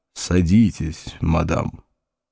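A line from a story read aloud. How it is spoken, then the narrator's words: Grumbling mutter. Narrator (Russian): Вульф пробурчал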